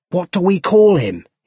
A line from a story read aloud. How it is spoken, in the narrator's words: He shouted